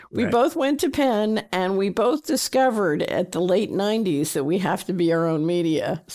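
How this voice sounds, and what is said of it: Philadelphia accent. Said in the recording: “both from Philadelphia. You can hear it in our accents ... when you say water, you can always hear it.”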